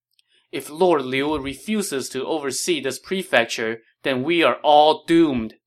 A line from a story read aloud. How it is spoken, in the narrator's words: they cried